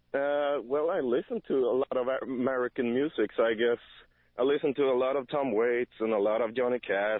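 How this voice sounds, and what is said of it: Speaks with an accent. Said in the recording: “your accent”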